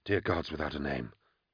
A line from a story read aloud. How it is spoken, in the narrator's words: Yeda Trice murmured